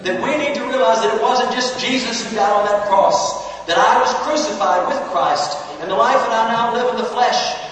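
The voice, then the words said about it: Speaks with a noticeable accent. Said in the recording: “Can you understand my accent?”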